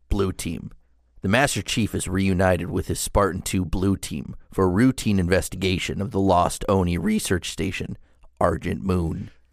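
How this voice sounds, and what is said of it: Impression of Steve Downs' Master Chief voice. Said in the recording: “do that in your Steve Downs voice”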